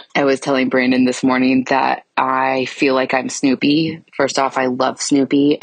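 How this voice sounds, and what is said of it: Rough, hoarse voice. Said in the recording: “as you can tell by my voice. I'm sounding a little rough.”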